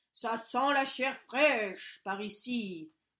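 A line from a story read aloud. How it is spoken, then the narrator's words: Ogre growling. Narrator (French): gronda l'ogre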